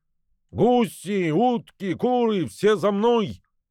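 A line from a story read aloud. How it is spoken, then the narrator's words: Gander calling out. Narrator (Russian): гусак крикнул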